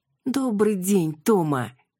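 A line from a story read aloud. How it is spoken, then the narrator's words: Sobbing mother. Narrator (Russian): всхлипнула мама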